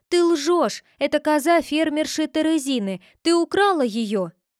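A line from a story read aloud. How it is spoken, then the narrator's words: Overwrought scream. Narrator (Russian): Розелина не выдержала, закричала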